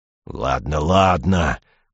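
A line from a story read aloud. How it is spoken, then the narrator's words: Doubtful grumble. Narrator (Russian): проворчал Мертил, но было видно, что он засомневался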